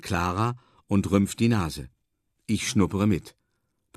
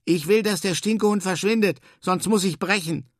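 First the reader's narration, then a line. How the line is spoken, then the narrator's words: Shout. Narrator (German): ruft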